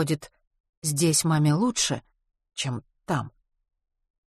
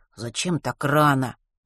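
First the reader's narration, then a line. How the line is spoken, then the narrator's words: Displeased grumble, muffled by pillow. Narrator (Russian): недовольно бурчал он в подушку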